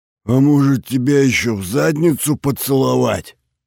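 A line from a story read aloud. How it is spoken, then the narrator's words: Roared. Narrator (Russian): взревела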